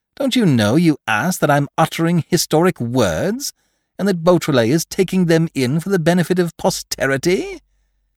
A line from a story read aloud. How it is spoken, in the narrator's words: He laughed